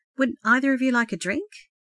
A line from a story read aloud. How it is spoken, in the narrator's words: she inquired timidly